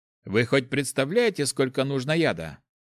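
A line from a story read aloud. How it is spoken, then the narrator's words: Scoffing snort. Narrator (Russian): хмыкнул Гош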